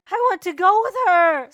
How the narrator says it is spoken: sobbed the elder

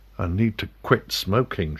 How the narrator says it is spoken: she muttered

